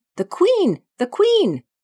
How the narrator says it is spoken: Five, who had been anxiously looking across the garden, called out

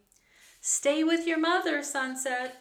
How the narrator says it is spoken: shouted Annie

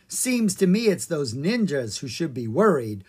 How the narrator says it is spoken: chuckled Mrs

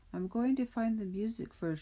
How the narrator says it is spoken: she said

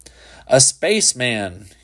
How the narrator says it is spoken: he shouted

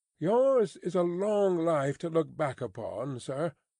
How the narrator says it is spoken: said Carton wistfully

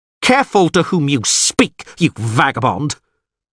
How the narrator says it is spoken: Ostrid yelled furiously

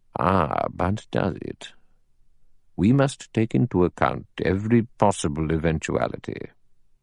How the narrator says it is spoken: Justice Wargrave, bringing a cold eye to bear upon him, murmured

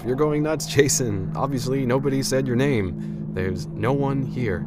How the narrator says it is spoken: laughed, and said to myself

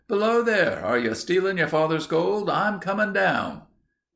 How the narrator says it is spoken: a voice called out

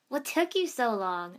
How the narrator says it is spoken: shouted up

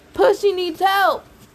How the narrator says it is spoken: Suddenly, Tyson ... yelling

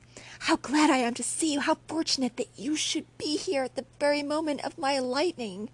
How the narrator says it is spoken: exclaimed he

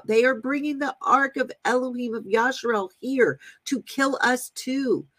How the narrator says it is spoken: the people of Ekron saw it coming, they cried out

